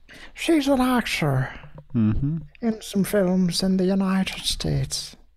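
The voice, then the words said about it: Put-on Irish accent. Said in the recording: “How's my accent, folks? ... I can't tell that you're not Irish ... I'm not exactly the authority on Irish accents, so it could be great, well, could be awful”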